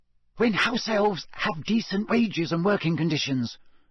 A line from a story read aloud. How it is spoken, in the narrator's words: she hissed back